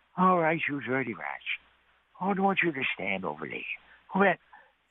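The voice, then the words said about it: James Cagney impression. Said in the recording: “doing an impression of Cagney”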